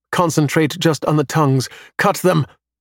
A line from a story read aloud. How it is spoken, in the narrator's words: shout